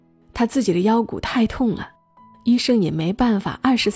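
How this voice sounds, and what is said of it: Usual voice. Nothing is said of it.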